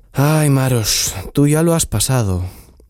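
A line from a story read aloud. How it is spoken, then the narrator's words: Sighing. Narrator (Spanish): suspiró Tsiprich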